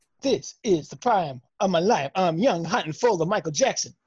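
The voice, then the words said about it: Rapping delivery. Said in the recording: “your accent is rap ... Was that Macaulay Culkin? Rapping.”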